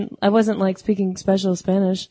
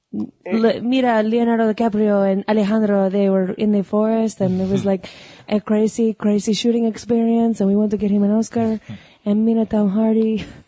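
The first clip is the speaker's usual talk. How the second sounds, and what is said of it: Put-on Cuban accent. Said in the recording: “you were speaking with an accent. ... A Cuban accent? ... Yeah.”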